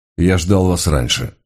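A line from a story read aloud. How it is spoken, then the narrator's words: Dry, curt reply. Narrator (Russian): сухо ответил Мигре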